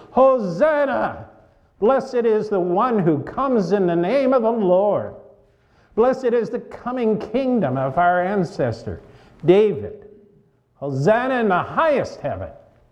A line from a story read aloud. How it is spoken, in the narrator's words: those who went ahead, as well as those who follow, were shouting